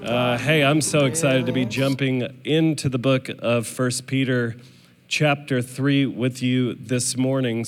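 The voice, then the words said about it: Sick, strained voice. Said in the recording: “I am nursing a sinus infection, so I brought my sexy voice for you guys this morning. If at any point my voice gives out”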